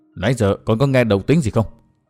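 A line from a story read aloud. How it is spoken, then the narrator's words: Soft question. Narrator (Vietnamese): ông khẽ hỏi Đinh Linh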